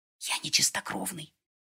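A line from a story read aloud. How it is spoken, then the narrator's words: Whispered explanation. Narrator (Russian): шепотом объяснил Мика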